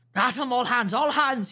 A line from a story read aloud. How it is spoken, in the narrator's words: roared in a voice of thunder